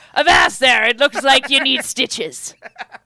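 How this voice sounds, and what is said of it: Put-on old sailor accent. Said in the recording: “Why does he have that accent in India? ... They be sailors. ... Tis the international sailor accent.”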